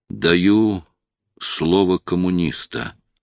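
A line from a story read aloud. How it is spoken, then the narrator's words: Slow and quiet. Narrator (Russian): Шельга проговорил медленно, негромко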